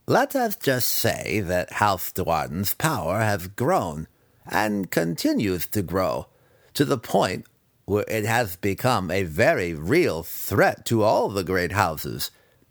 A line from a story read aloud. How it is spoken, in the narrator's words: Massage purred, loving the intrigue of positioning before a war